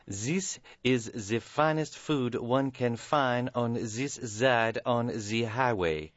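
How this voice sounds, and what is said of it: Fake fancy French accent. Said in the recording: “Buzz spoke in a fake, fancy French accent ... maintaining the fake accent”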